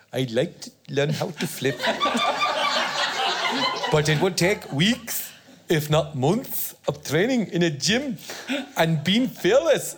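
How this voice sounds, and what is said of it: Attempted Geordie accent. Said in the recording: “this is an accent I can't do. It's Geordie.”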